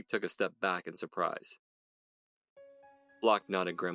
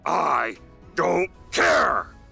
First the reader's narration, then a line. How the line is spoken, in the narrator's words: snarled Block